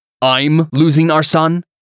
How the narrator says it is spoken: Antonius snapped as his nostrils flared dangerously

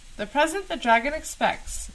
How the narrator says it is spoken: said cheerfully

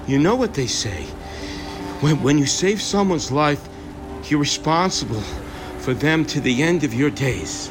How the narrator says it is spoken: And Scott, panting, his voice shaking, says

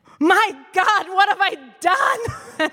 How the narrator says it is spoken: horrified, and I just shouted

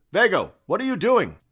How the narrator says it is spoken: Somewhere far away, Gabriel shouted

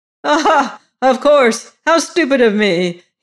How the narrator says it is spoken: said with a little loud laugh

